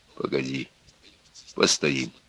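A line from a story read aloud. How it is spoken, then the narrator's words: Hoarse. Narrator (Russian): осевшим голосом сказал Егор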